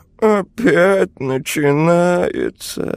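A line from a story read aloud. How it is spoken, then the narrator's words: Heavy weary sighing. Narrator (Russian): вздохнул Унылый и снова тяжело вздохнул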